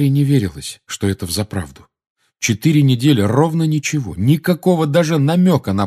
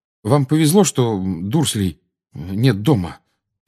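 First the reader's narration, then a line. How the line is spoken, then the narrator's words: Muttered. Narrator (Russian): пробормотал он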